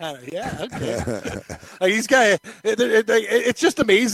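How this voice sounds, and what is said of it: Usual voice. Nothing is said of it.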